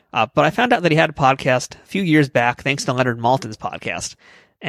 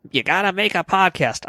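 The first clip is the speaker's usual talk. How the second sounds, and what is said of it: Imitates another person's voice. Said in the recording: “Gilbert Gottfried ... I'm never gonna do that voice again.”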